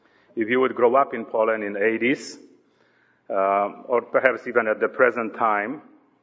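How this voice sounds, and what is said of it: Polish accent. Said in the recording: “my accent is not French. It is old good Polish accent”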